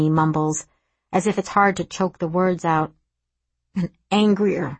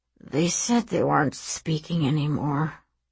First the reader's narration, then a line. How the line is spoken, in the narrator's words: he mumbles into the floor